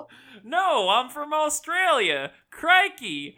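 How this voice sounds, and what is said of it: Put-on Australian accent sounding Texan. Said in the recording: “This is my Australian accent. ... You sound like a Texan ... you sound like a Texan”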